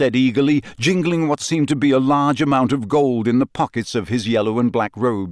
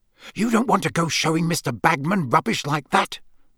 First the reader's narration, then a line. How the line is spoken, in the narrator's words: Percy hissed